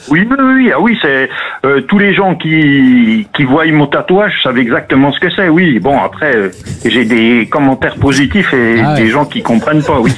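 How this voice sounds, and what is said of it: French Franche-Comté regional accent. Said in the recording (French): “l'accent magnifique ... l'accent du Jura ... l'accent doubiste ... En Franche-Comté ... On a un accent qui se reconnaît facilement ... Oh, légèrement ... Franchement, discret”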